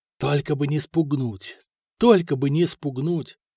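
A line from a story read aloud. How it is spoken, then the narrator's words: Whispering to himself. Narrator (Russian): шептал про себя Святослав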